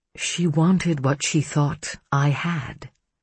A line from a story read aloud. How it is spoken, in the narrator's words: Hannah said softly